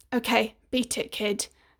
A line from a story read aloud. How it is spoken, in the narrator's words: He murmured